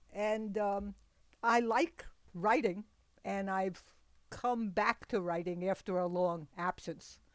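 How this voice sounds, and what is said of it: New York City accent. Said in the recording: “I was born and raised, went to school in New York City... you can probably tell from my voice and the way I pronounce things”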